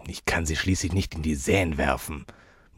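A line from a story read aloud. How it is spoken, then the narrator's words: Mutter. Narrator (German): murmelte Gabriel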